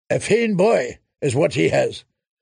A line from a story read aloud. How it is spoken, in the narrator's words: said Randall Tarley